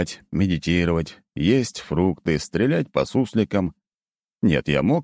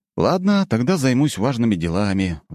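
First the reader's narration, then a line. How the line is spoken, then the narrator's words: Sigh. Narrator (Russian): вздохнул я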